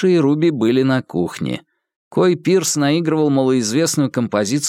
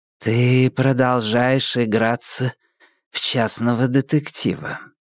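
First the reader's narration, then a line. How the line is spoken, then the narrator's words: Gentle reproach. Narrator (Russian): мягко попеняла ему Риджби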